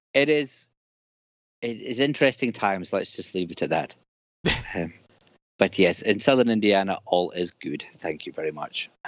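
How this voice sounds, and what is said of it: Scottish accent. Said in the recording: “he sounds Scottish”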